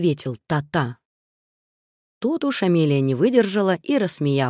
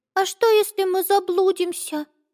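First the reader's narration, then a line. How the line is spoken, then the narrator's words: Anxious squeak. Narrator (Russian): взволнованно пропищала Амелия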